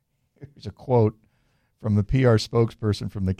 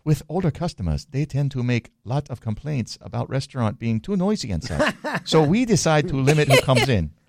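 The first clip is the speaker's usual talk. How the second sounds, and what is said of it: Put-on funny accent. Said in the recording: “You nailed that accent. ... That accent ... Is really funny.”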